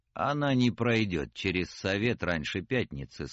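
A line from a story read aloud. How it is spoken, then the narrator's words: Calm objection. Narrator (Russian): спокойно возразил Гондремарк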